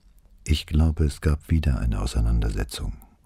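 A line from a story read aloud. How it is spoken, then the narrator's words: Very quiet. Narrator (German): sagte sie so leise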